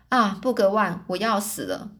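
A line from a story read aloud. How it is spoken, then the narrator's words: Breathless gasping. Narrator (Chinese): 美丽的美丽的少女喘着气说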